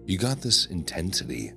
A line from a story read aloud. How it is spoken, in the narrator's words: Lena murmured